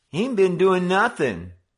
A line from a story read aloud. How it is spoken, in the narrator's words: Simpson whined